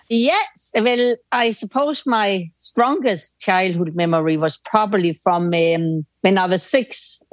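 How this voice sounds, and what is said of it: Foreign accent in English. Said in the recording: “Basically Irish with a foreign accent.”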